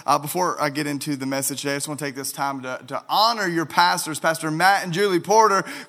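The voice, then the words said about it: Arkansas Southern American accent. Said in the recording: “I'm from Arkansas ... the accent will follow.”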